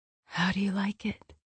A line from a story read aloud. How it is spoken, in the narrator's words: she asked, her voice breathy as hot need washed through her